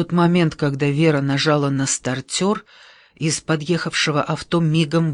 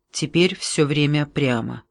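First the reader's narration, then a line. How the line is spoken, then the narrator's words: Plain. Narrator (Russian): сказал Мартин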